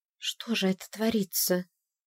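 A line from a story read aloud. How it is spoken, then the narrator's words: Whisper. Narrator (Russian): прошептала Ирис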